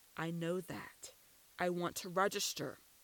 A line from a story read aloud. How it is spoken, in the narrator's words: barked